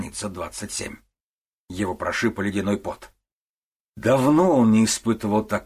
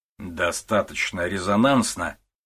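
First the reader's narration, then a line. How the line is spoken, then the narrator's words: Stern question. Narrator (Russian): строго вопросил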